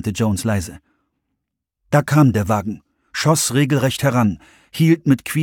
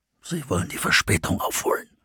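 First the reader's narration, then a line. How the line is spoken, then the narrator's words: Guttural whisper. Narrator (German): flüsterte Russ kehlig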